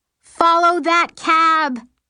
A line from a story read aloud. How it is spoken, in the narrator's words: I scream